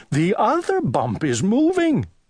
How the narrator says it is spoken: cried Owl

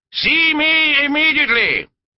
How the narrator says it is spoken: boomed

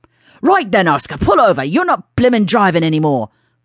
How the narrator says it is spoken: Floyd shouted into his colleague's face

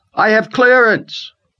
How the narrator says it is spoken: Rayford shouted

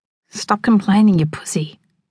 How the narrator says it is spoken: Ben hisses

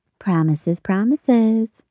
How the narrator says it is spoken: the girl said as she turned, pouting playfully

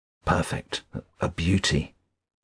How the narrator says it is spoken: murmured

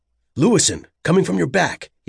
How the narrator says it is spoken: barked the warning into his lapel mic

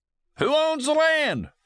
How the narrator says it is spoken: Someone shouted

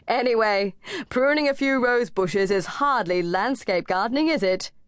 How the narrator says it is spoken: laughed

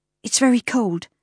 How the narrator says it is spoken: Clara said, glancing anxiously

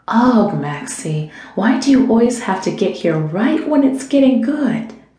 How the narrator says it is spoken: Tracy sighed

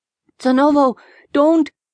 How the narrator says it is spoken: cried

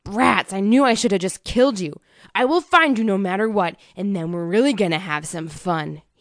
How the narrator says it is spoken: growled

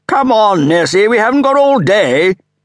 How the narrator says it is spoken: She raised her voice and shouted again

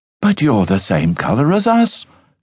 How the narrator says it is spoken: gasped the others

